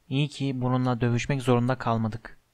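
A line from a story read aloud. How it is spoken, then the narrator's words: Whispered. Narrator (Turkish): diye fısıldadı Harry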